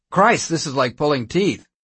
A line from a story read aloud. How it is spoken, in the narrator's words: O'Neill exclaimed in frustration